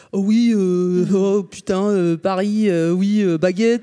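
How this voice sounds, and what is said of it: Clichéd French Parisian accent. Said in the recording (French): “si les Québécois faisaient les Français, ils feraient ... c'est pas ça du tout les Parisiens, l'accent parisien.”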